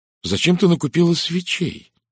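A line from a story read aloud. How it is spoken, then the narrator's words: Exclaiming. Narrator (Russian): воскликнула Кристина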